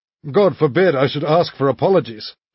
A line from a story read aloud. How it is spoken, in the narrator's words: he cried, laughing